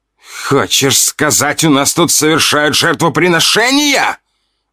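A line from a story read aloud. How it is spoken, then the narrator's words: Shouted out. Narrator (Russian): выкрикнул ушастый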